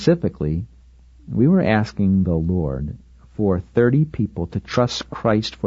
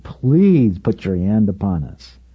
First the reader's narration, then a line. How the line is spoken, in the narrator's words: pleading with God